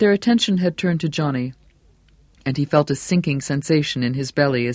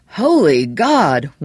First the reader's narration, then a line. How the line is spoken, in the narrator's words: one of them exclaimed